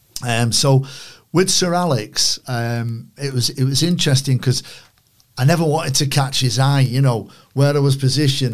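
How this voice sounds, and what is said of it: Manchester accent. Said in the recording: “my Manchester accent”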